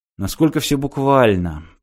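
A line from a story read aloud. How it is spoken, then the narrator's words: Muttered. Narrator (Russian): пробормотал Мартин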